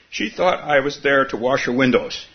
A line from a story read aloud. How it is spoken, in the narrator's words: exclaimed with delight